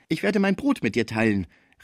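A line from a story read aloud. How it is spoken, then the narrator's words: Joyful exclamation. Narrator (German): rief Schmucke voller Freude, einen Menschen bei sich zu haben, der Pons liebte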